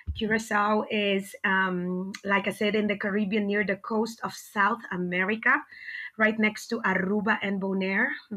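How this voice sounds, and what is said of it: Caribbean accent with rolled R. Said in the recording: “You're hearing an accent. I can roll my R because I was born and raised in the Dutch Caribbean island of Curaçao.”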